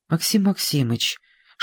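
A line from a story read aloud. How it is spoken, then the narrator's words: Whispered. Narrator (Russian): шепотом сказала Сашенька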